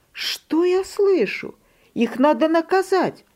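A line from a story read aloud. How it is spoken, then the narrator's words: Mother exclaiming. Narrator (Russian): Мама воскликнула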